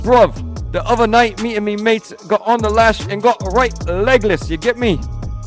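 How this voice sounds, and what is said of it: Put-on British accent. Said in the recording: “I'm also going to try to put on a British accent.”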